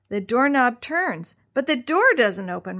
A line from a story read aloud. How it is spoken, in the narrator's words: Maria shouted